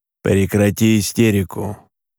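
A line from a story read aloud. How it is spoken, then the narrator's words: Dry, father. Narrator (Russian): сухо сказал отец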